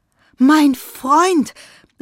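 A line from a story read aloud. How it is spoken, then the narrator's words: Called out. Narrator (German): rief er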